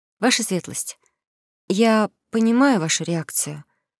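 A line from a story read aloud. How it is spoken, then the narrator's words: Gentle. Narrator (Russian): мягко начала она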